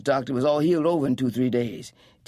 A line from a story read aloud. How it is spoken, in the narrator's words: Tea Cake said impatiently